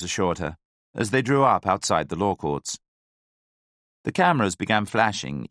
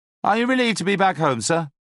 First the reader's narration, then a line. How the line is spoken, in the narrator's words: shouted